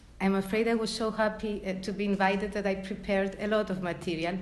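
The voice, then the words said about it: Speaks with a noticeable accent. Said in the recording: “I hope that you can put up with my accent”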